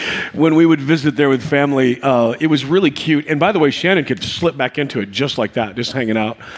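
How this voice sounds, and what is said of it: Usual voice. Nothing is said of it.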